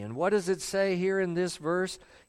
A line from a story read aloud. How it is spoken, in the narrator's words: He cried out with a loud voice